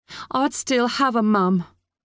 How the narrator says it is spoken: Molly screamed back

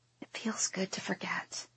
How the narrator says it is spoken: I whisper

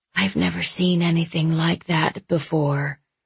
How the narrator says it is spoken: whispered

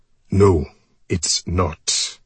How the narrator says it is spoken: my father snapped

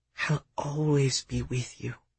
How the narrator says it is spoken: she whispered

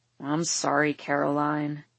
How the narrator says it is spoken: Luke mutters, he really does feel bad

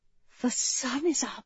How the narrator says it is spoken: she whispered

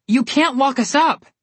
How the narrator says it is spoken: Connor yelled, loud enough for the whole street to hear

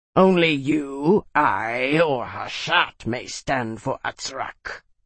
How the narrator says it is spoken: Skagara snarled

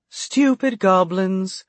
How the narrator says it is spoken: the woman said with a musical laugh

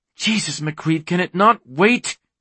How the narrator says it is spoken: she snapped

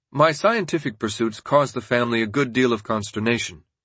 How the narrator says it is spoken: he reported sadly

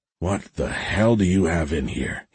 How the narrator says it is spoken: asked, grunting

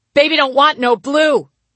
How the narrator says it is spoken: I shouted at my own reflection

